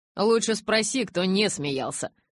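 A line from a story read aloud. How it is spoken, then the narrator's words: Grumbling mutter. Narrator (Russian): пробурчал Джейк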